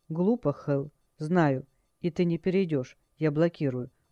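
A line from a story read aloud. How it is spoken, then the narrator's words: Calm. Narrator (Russian): сказал спокойно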